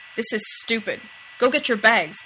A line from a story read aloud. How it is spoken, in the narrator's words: Dean snapped